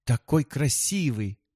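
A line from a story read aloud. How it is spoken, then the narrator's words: Exclaiming. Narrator (Russian): воскликнула она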